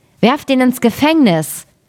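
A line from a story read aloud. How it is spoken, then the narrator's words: Angry young man's call. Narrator (German): der junge König wurde zornig darüber und rief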